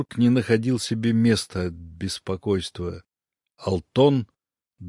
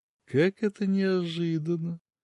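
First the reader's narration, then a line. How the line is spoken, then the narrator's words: Cooing. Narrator (Russian): проворковала она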